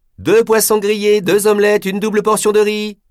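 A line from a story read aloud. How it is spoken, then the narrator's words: Yelled toward the kitchen. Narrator (French): hurla celle-ci en direction de la cuisine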